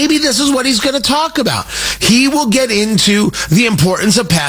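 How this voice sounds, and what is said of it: Usual voice. Nothing is said of it.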